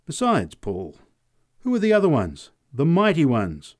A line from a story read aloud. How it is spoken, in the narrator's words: cried the woman